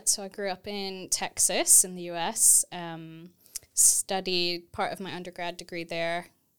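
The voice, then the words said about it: American accent, not British. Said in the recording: “I am not originally British, if you can't tell from my accent.”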